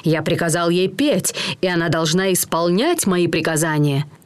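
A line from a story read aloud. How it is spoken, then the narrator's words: Monster snapping back. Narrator (Russian): чудовище огрызнулось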